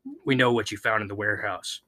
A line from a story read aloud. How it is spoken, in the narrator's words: he said, his tone menacing